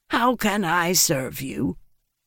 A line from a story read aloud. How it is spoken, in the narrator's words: she said in a wheezy voice